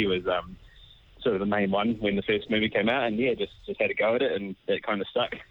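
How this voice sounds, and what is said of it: Usual voice. Nothing is said of it.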